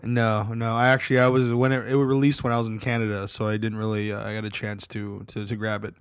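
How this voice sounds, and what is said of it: Strained, fading hoarse voice. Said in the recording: “My voice is going, unfortunately ... I know why your voice is going”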